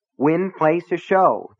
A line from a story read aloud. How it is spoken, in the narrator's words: the teller repeated impatiently